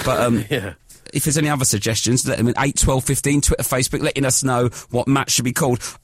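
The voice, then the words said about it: South East London accent. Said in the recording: “I'm sensing a South East London accent.”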